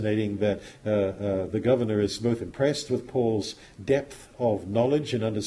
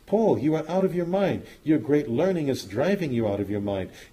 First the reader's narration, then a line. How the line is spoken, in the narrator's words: Festus, cried with a loud voice